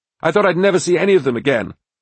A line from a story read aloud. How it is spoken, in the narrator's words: Richard yelled from one of the side walls